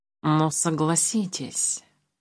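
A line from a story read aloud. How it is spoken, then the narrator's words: Purring cat. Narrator (Russian): мурлыкнул кот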